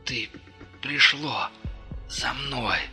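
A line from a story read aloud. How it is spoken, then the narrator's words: Exhausted breathless gasp. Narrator (Russian): Выдохнул он из последних сил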